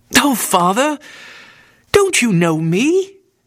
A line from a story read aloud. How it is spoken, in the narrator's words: exclaimed the girl